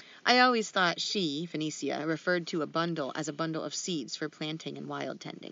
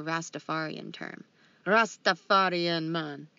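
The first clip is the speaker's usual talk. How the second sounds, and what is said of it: Put-on Rastafarian accent, not good. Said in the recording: “Oh, you'll do that accent. ... It was not good.”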